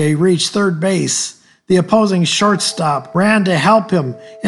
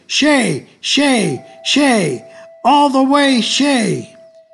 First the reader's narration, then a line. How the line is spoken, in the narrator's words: All were screaming